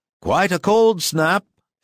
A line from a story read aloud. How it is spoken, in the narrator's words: exclaimed Alfiorov